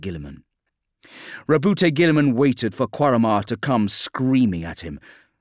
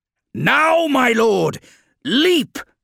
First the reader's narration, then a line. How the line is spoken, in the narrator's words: shouted Tigurius